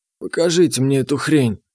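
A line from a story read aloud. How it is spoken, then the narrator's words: Grumbling. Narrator (Russian): буркнул Потапыч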